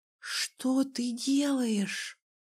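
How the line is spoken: Intrigued whisper. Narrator (Russian): прошептала я, заинтригованная

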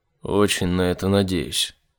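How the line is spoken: Gloomy. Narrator (Russian): мрачно сказал Айзек

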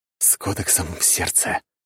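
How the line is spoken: Whisper. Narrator (Russian): прошептал я

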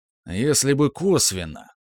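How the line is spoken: Grumpy grumble. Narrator (Russian): брюзгливо заворчал Степан

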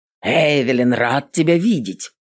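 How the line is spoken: Deep bass voice. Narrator (Russian): пробасил стражник

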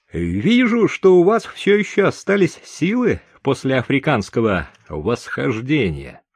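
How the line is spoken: Shouting downward. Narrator (Russian): крикнул я вниз

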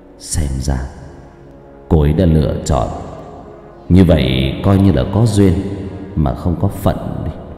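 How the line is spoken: Young man's wistful mutter. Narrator (Vietnamese): Người thanh niên không đáp lại thân ảnh kia, chỉ tự mình lẩm bẩm

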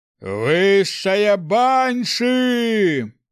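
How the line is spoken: Yelling with all strength. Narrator (Russian): Изо всех сил заорал Снег

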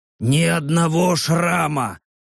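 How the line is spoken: Hoarse rasp. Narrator (Russian): прохрипел Рек

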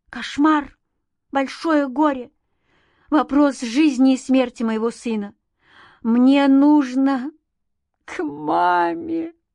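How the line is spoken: Moaning, then crying. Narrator (Russian): простонала она и заплакала

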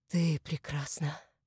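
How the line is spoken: Breathed out. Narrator (Russian): выдохнул Иван, отвлекшись от всех своих мыслей, когда Мария поднялась из-за столика

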